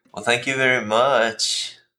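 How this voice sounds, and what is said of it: Offended Valley girl voice. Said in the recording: “is that your DC Valley girl? What accent is that ... That's like a white girl with privilege who's offended ... Your impression of Cece is white girl with privilege”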